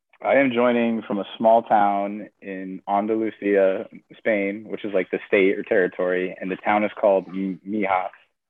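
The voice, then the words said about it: Congested, rough voice. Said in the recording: “my voice is all messed up. I kind of caught a cold.”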